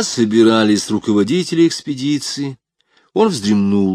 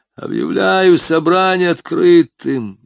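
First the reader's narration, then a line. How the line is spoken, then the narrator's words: Hoarse whisper. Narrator (Russian): Язон пытался говорить громко, но раздался лишь хриплый шепот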